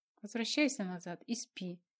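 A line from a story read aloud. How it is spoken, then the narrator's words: Mumbled through a yawn. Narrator (Russian): сквозь зевоту пробормотала она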